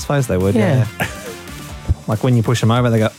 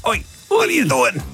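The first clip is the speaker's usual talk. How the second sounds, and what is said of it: Bad Scottish accent. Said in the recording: “it was just a bad Scottish”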